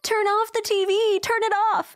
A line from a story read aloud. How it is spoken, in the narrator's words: she starts screaming